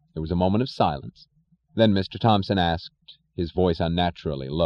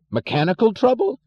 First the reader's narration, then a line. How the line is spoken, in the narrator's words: yelled Mr